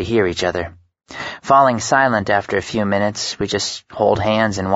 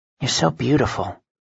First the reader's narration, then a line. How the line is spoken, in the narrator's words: I tell her softly